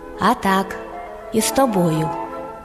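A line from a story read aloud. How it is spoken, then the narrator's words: Calm hedgehog. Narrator (Ukrainian): А їжак спокійно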